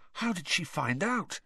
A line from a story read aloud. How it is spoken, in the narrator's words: he whispered